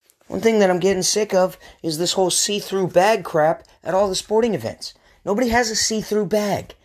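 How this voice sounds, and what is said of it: Usual voice. Nothing is said of it.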